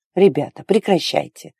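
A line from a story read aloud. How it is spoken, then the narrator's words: Smooth sing-song voice. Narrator (Russian): пропел он своим плавным голосом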